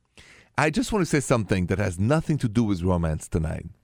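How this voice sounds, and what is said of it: French accent. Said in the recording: “The accent is French, français.”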